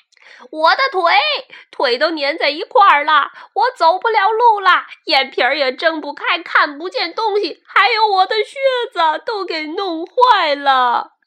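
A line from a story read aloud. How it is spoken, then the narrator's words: Angry shrieking. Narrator (Chinese): 蜈蚣生气地尖叫起来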